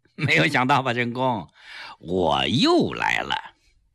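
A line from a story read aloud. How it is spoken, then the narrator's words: Calm, smiling. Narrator (Chinese): 蔡增基一笑，很坦然地说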